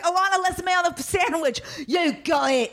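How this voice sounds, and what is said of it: Bad over-the-top Cockney British accent. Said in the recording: “I sound like Dick Van Dyke and Mary Poppins ... the worst fucking British accent in the entire world ... such an over the top accent ... It's Cockney”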